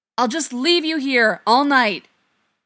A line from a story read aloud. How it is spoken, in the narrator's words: Feely yells into the hole